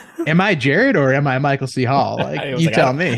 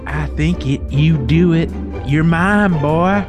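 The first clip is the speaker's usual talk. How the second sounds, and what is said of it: Bad put-on Southern accent. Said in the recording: “busting out the bad Michael C. Hall Southern accent ... the Colonel Sanders on me”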